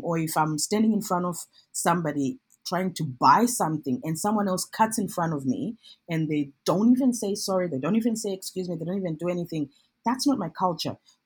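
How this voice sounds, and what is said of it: Non-Australian English accent. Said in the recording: “I speak with a different accent ... It's a different accent that's not Australian”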